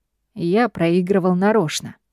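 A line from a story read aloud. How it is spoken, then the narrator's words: Calm reply. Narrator (Russian): отвечает он спокойно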